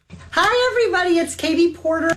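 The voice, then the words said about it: Little girl voice. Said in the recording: “We're back to the little girl voice.”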